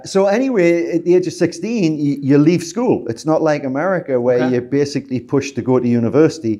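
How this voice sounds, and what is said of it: Northern English accent, Scottish-sounding. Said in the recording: “in England, that's where I'm from... Place called Newcastle upon Tyne, which is the very north of England... So my accent's more Scottish than English.”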